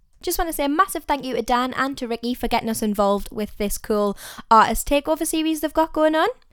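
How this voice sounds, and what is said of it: Northeast English accent. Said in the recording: “they are all from the northeast of England, which is exactly where we're from, if you couldn't tell by the accent.”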